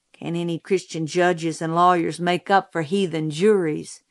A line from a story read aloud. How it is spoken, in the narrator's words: Jim muttered